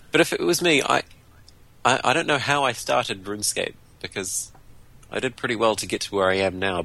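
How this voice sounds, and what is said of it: Speaker's own accent. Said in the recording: “my accent does that sometimes”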